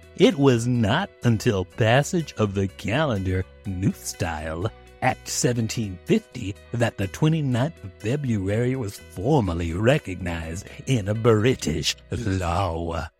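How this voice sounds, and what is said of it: Cool, smooth cartoon character voice. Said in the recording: “talk like a cool, smooth cartoon character ... This is my fake voice”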